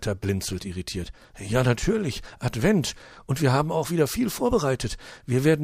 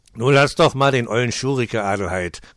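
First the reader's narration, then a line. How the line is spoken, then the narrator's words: Angry male growl. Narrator (German): knurrt er die Frau erbost an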